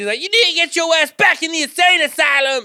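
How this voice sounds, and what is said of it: Imitated woman's voice and accent, yelling. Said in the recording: “Fucking committed to that voice and the accent.”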